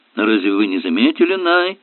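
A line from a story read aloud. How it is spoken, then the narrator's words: Grumbling. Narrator (Russian): проворчал Брюмер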